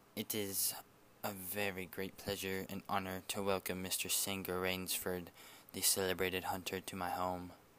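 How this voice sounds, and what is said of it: Cultivated voice, slight accent, deliberate. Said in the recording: “in a cultivated voice marked by a slight accent that gave it added precision and deliberateness”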